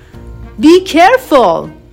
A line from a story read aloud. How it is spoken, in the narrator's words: shouted an angry Compsognathus